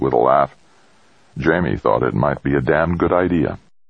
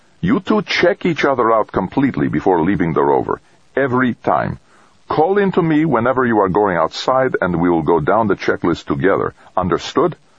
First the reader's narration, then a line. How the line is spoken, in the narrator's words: Stacy, ever practical, said firmly